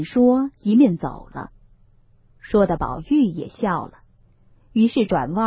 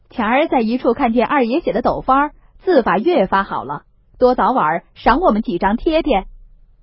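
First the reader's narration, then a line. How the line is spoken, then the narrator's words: Group laughing. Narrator (Chinese): 众人都笑说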